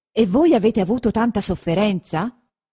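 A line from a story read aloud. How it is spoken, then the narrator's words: Exclaimed. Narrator (Italian): esclamò il conte Attilio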